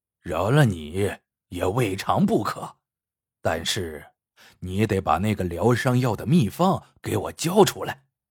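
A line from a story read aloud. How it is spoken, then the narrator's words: Lowered voice. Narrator (Chinese): 邱斌压低声音说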